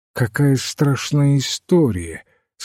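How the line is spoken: Bored voice. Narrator (Russian): сказал он скучным голосом

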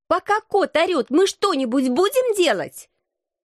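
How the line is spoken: Shout. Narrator (Russian): прокричала я Алексу

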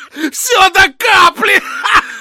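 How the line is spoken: Bartender laughing. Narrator (Russian): Хохотал бармен

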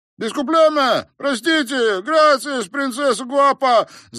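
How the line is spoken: Yelling after someone. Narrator (Russian): завопил Антонио ей вслед

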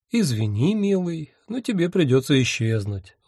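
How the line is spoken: Tender, affectionate. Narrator (Russian): ласково сказал я

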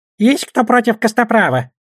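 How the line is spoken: Squeak. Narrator (Russian): пропищал Гоблин

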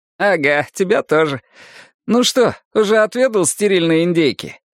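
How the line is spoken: Laughing. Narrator (Russian): Деннис рассмеялся

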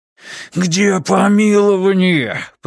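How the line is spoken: Roar. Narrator (Russian): проревел он

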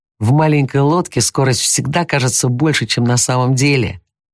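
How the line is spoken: Shouted. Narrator (Russian): прокричал Дики

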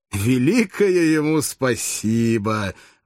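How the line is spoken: Mocking laughing exclamation. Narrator (Russian): воскликнул с насмешливым хохотом вождь гладиаторов

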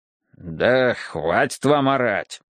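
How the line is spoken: Grumbling. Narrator (Russian): проворчал Билл

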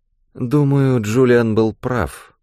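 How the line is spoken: Sleepy. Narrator (Russian): сонно проговорила Фиона

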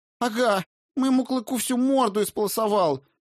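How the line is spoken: Shrill rapid chatter, milkmaid. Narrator (Russian): визгливо зачастила молочница Хильда

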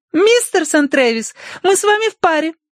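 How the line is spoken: Exclaiming. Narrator (Russian): воскликнула Тосси

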